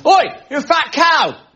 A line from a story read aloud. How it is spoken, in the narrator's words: a man on Tottenham Court Road shouting at this woman